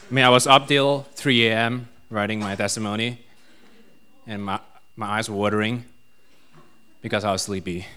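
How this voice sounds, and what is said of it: Malaysian accent. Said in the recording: “my Malaysian accent”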